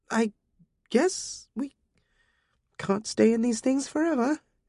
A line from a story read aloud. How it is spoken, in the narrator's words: she muttered